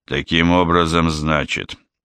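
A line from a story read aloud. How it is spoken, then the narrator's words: Grumbling. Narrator (Russian): проворчал Бэкстрём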